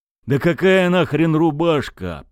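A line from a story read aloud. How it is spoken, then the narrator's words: Captain groaning. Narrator (Russian): простонал капитан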